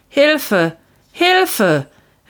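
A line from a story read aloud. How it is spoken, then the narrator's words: Injured man calling. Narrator (German): rief der verletzte Mann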